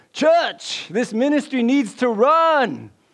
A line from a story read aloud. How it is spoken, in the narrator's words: shouting louder